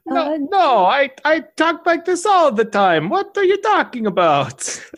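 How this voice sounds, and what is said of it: Put-on vague Italian accent. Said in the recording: “I'm vaguely Italian now. I affect this accent”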